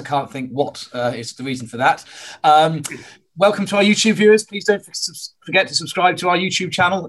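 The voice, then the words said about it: Hoarse voice. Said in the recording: “Apologies for my hoarse voice.”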